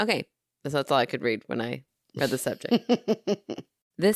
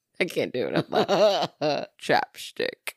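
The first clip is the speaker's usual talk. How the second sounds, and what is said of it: Imitates another person's voice. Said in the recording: “my only Sean Connery impression”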